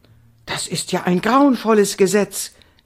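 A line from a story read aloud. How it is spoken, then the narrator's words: Excited cry. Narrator (German): rief Indiana aufgeregt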